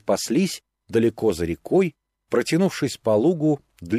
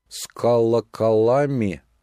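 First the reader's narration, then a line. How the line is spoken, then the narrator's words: Drawling bass question. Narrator (Russian): спросила Мотька басом, растягивая каждый слог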